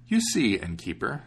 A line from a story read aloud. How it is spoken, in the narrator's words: said the huntsman